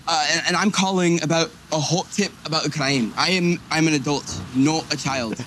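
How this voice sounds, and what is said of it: Bad fake Scottish accent. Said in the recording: “puts on a terrible fake Scottish accent ... his Scottish accent wasn't, I mean, it's bad. It's really hacky, but it could have been worse”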